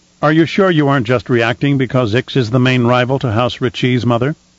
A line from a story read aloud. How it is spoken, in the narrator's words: asked